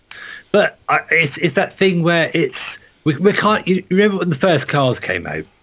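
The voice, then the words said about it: Norfolk English accent. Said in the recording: “my dodgy Norfolk accent”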